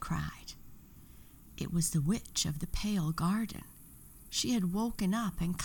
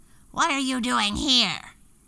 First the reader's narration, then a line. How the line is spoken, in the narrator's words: the witch growled